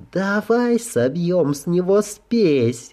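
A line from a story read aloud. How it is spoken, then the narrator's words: Purring. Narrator (Russian): мурлыкнула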